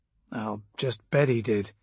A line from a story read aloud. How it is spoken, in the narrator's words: Kelp muttered